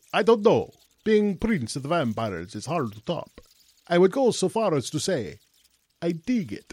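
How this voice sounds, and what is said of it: Classic vampire accent. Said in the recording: “with your accent and all of that... you are a classic vampire”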